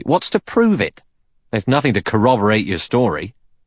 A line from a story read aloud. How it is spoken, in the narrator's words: Blore said sharply